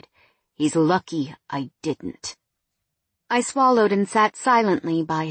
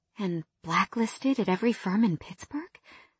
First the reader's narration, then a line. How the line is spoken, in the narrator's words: I whispered